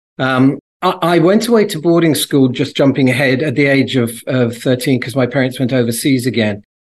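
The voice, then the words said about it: English accent. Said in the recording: “you can tell by my accent, I originally came from England”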